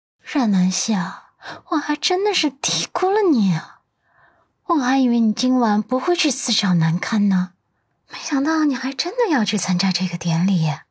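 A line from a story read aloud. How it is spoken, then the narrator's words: Sarcastic, through gritted teeth. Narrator (Chinese): 他咬牙，冷嘲热讽道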